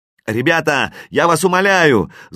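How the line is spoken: Belated shout from stands. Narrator (Russian): запоздало кричал кто-то на трибуне

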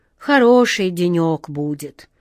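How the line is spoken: Sigh. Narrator (Russian): вздохнул старпом Сеня

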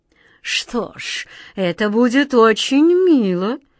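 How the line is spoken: Languid, softened voice. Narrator (Russian): разнеженным голосом проговорил король

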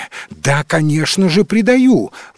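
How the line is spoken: Impatient exclamation. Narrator (Russian): воскликнул Эдмонд, теряя, наконец, терпение

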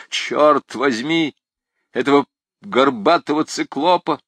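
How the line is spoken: Muttered through teeth. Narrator (Russian): проворчал сквозь зубы Грангуар

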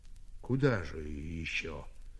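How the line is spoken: Sighed. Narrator (Russian): вздохнул Степан

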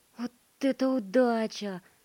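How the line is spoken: Mechanical boy's exclamation. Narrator (Russian): воскликнул механический мальчик

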